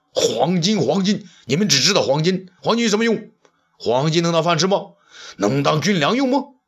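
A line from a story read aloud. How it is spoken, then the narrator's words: Furious. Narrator (Chinese): 武帝震怒道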